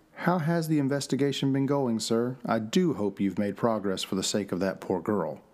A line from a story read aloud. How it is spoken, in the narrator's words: She smoothly asked